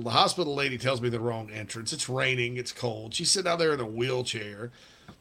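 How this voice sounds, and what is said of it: South Carolina Southern accent. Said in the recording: “She made fun of my accent while I was on the phone. ... North or South Carolina? And I said, South Carolina. It's like, oh, I can tell South Carolina.”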